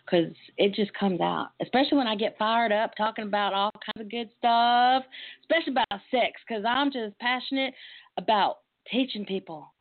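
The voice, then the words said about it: Strong Texas accent. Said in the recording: “I'm from Texas. I'm a very proud Texas girl, and I sometimes I am self-conscious of my accent, and sometimes I can make Peggy Hill sound like she's from up north somewhere”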